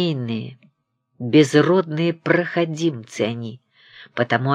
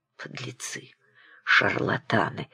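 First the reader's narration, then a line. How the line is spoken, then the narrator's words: Muttering. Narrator (Russian): пробормотал Обносков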